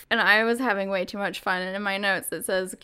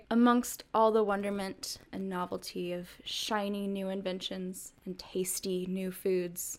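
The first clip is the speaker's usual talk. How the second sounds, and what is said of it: Dramatic Keith Morrison narrator impression. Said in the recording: “cue Keith Morrison voice from Dateline ... I don't even know how you do a Keith Morrison voice, but I wrote this really dramatic sentence”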